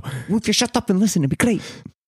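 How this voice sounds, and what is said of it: Put-on Italian accent. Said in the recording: “I don't know why I changed my accent. I'm Italiano.”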